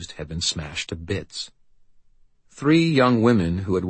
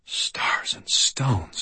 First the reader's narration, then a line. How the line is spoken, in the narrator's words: I breathed